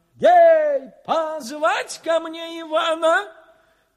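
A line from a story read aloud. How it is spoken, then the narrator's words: Hasty shout, tsar. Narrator (Russian): Царь поспешно закричал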